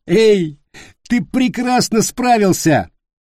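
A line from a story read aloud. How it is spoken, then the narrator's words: Forced through laughter. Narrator (Russian): выдавил он сквозь смех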